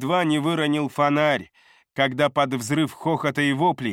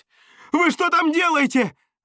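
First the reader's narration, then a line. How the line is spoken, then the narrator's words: Yelling. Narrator (Russian): заорал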